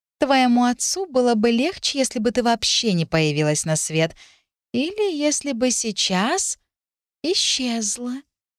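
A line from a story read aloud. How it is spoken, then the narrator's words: Lazy thoughtful drawl. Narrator (Russian): лениво-задумчиво протянула Беатрис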